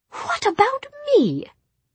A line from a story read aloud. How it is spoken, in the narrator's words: said Jessamine indignantly